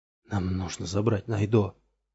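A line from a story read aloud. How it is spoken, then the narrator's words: Shaken whisper. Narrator (Russian): прошептал Ромул, все еще не придя в себя после припадка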